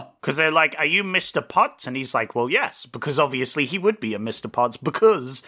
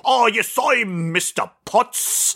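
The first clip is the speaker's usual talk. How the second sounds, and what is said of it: Put-on British-South African accent. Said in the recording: “It's like British. You gotta go British, but then South African. ... That's the voice, that's it. ... You have to go British, then South African.”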